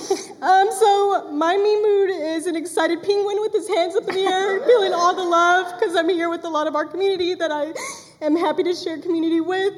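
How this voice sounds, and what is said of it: Emotional, tearful voice. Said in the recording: “I'm already getting emotional. ... We like crying. We support crying here. ... Did not think I'd cry 10 minutes in.”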